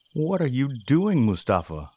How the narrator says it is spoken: shouted one of the dudes

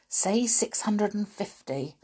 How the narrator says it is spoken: whispered Winks

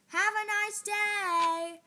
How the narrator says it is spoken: the guard called out

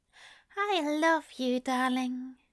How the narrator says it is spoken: he says softly

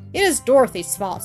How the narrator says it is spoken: said Marie sharply

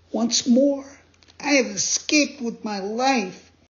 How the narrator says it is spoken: But nothing daunted, he jumped to his feet and cried

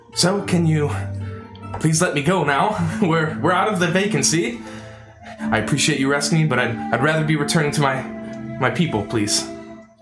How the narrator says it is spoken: Royce, sort of pleadingly says

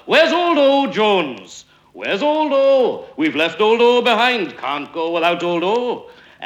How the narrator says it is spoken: Franklin called out loud

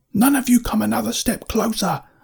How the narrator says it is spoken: I yelled

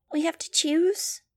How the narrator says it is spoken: Gazi squeaked

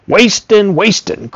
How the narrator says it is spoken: Grandfather snapped

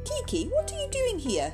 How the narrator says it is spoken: cried Nelly happily

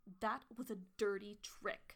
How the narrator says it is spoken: she growled

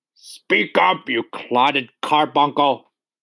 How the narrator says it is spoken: roared the Trunchbull

